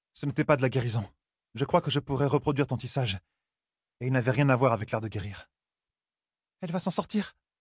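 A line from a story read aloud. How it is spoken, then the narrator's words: Tired trembling question. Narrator (French): demanda Elaine d'une voix tremblante à cause de la fatigue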